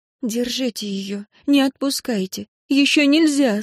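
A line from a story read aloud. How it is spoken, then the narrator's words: Frightened. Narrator (Russian): сказала Энн испуганно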